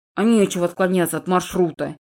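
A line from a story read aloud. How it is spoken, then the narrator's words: Gruff mutter. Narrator (Russian): буркнул Макс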